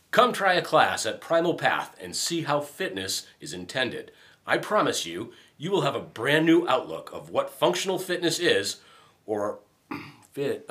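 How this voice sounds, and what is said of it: Announcer-style radio voice. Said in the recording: “He's got a good voice ... give this one a shot with your radio voice.”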